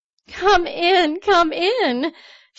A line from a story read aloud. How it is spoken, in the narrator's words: She laughed the words